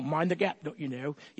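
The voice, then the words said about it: Very bad English accent. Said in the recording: “that is a very bad English accent.”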